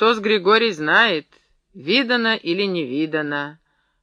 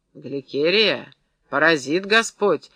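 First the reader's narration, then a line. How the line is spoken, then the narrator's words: Threatening warning. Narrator (Russian): грозно предупредила Евдокия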